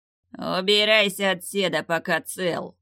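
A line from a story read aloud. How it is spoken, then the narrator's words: Angry growl. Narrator (Russian): зло рыкнул бандит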